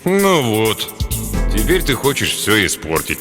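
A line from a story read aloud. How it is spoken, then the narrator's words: Gloomy objection. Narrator (Russian): мрачно возразил Турдин Танджимбо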